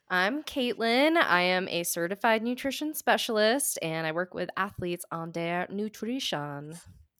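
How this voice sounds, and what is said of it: Speaking in a put-on accent. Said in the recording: “I don't know why I went accent-wise today.”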